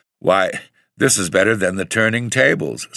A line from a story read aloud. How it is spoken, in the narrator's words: said I with a half laugh